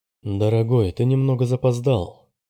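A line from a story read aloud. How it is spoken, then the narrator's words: Very calm voice. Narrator (Russian): ответила Роза очень спокойным голосом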